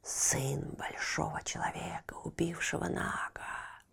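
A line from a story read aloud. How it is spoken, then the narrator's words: Hissing. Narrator (Russian): шипела она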